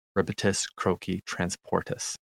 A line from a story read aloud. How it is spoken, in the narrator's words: whispering